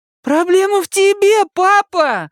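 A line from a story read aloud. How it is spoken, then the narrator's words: Shouted. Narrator (Russian): закричала Дакота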